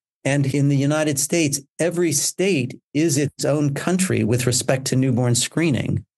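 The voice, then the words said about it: American accent. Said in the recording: “I come from the United States, as my accent will clearly demonstrate.”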